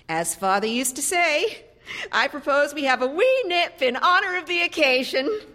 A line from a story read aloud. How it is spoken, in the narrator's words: Mildred said a bit wildly, her voice rising over the roar of a passing truck on Third Avenue